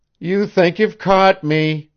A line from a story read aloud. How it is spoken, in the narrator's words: whined Janet